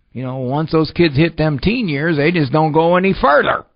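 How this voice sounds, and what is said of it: Put-on rural farmer accent. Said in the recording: “Sorry for the farmer accent there.”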